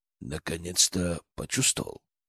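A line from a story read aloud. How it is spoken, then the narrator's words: Quiet question. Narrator (Russian): тихо спросил Изаму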